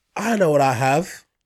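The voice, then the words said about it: Put-on Scottish accent. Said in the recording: “in a Scottish accent”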